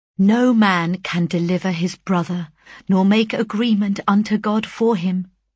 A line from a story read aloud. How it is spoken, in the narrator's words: I replied